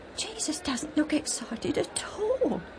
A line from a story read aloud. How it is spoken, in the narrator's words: Alf whispered to Joe